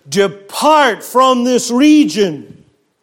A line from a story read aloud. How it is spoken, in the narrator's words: they began to plead with him